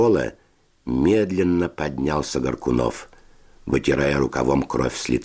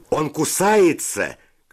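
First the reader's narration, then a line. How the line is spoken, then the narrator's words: Shout. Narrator (Russian): крикнул кто-то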